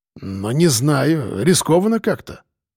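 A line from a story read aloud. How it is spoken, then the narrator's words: Mutter. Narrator (Russian): пробормотал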